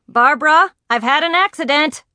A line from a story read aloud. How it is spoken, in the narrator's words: yell